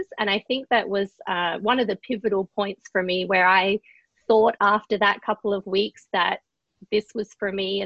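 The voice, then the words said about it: Australian accent. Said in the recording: “your childhood was not here in the United States from your accent ... I grew up in Adelaide, which is the capital city of South Australia”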